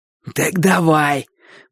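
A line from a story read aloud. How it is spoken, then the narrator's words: Hoarse rasp. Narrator (Russian): просипел Боча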